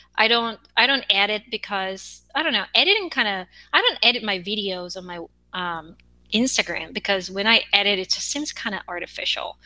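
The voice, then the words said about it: Korean accent. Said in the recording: “I have an accent as a Korean ... Sometimes my accent comes out when I feel tired ... my accent start becoming, you know, thicker”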